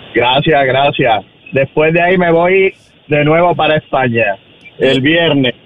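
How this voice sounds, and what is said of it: Spanish accent from Málaga. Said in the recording (Spanish): “¿Y pero tú eres natural de España? ... Porque no logro identificar tu acento. ... ¿De Galicia? ... No, soy de Málaga. ... Malagueño.”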